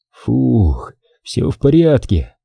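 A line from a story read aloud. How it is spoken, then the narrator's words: Relieved exhale. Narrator (Russian): выдохнул с облегчением Степан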